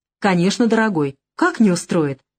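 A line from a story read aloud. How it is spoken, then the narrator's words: Cheerful exclamation. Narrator (Russian): весело воскликнула она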